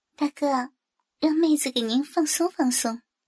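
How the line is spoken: Whispering. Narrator (Chinese): 小声的说

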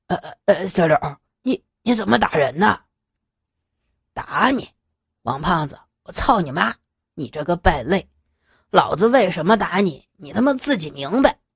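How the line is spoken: Stammering question. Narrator (Chinese): 结结巴巴的问

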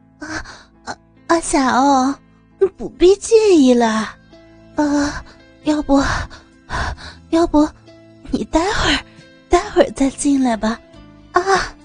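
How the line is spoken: Breathless, stammering. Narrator (Chinese): 阿梅一边喘气儿一边说道

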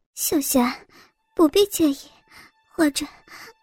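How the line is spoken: Breathless. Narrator (Chinese): 阿梅一边喘气儿一边说道

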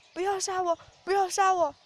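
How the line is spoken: Begging repeatedly. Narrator (Chinese): 一个劲儿哀求着

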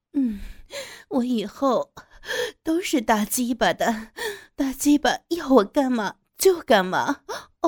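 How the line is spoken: Coy tearful coaxing. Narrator (Chinese): 我带着娇柔和哭腔的对着黑人媚声道

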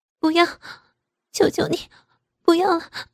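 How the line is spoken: Crying, begging in pain. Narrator (Chinese): 痛得楚雅哭着连声求饶

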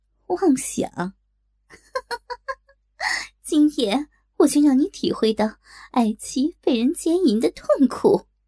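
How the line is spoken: Loud mocking laughter. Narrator (Chinese): 东方不败哈哈大笑

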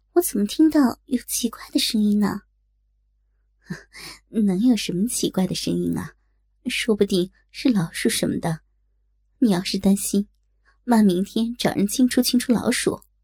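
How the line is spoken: Sighing. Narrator (Chinese): 叹气说道

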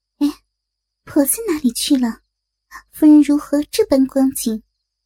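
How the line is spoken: Giggling. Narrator (Chinese): 不觉嘻的笑了一声

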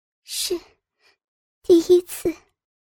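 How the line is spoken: Indistinct murmur. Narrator (Chinese): 女孩语音不详的喃喃说道

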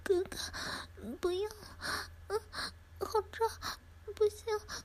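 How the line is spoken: Crying girl. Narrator (Chinese): 少女哭泣着

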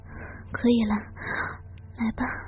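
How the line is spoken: Soft, breathless. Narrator (Chinese): 这才轻轻喘气，对他们说

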